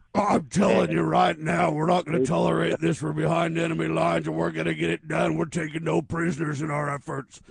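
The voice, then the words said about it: Loud yelling, imitates another person's voice. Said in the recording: “yelling ... breaks out yelling ... Yeah, and real loud. And yes, that's a very good Alex imitation.”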